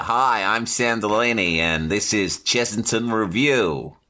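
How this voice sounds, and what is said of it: Put-on American accent. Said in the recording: “In an American accent.”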